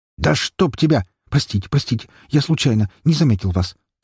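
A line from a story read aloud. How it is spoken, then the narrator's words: Hurried apology. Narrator (Russian): торопливо извинился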